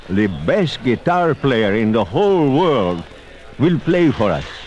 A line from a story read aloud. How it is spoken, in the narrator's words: the rich man called out